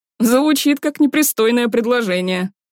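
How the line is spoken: Chuckling. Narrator (Russian): хохотнул друг

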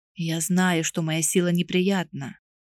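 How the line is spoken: Quiet. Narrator (Russian): заговорил он тихо

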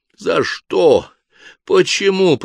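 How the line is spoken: Continued hoarse wheezing. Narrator (Russian): продолжал хрипеть Ришар

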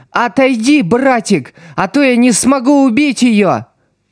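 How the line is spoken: Screamed. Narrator (Russian): Цукимия закричала

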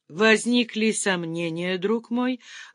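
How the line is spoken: Benefactor's affectionate question. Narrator (Russian): ласково спросил благодетель

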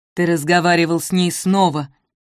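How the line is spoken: Angry old woman. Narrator (Russian): зло говорила бабушка

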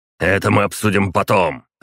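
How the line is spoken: Growled. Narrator (Russian): рыкнул Паскевич

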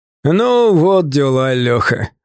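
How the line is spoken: Laughing. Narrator (Russian): он снова рассмеялся

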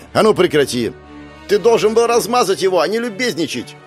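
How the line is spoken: Girl shouting out. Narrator (Russian): Выкрикнула одна из девушек

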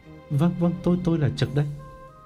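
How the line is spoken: Stammering. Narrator (Vietnamese): Gã ấp úng

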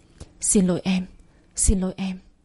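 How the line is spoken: Choked with emotion. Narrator (Vietnamese): Giọng nói của Thành nghẹn ngào

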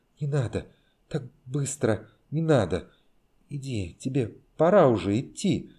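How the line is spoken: Halting whisper. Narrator (Russian): сбивчиво шептала она

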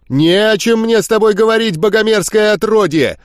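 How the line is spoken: Shouted. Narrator (Russian): Закричал он

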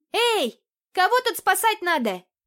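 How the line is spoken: Shouted. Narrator (Russian): крикнула я

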